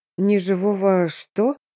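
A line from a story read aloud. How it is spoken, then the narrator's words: Nervous. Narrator (Russian): нервно сглотнула я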